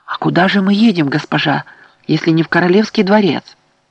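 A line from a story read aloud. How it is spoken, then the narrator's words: Excited question. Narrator (Russian): Керт взволнованно спросила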